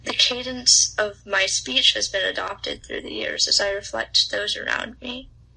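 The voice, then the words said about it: Southern American accent. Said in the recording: “my accent”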